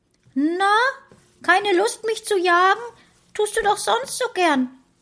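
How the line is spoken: Squeaky taunting voice. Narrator (German): provozierte sie mich mit ihrer Piepsstimme

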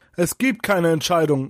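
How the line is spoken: Loud. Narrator (German): sagte Kunibert laut, entschlossen

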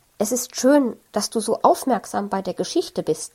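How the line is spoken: Plain. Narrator (German): sagt Frau Sinnvoll

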